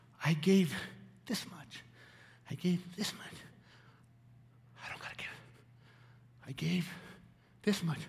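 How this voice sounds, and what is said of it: Out of breath, panting speech. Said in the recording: “I'm out of breath.”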